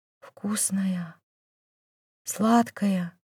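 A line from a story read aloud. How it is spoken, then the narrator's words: Whisper. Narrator (Russian): шептал Дамир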